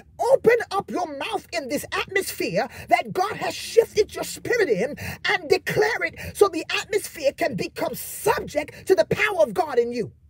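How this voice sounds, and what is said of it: Screaming, excited preaching. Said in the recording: “why are you screaming?”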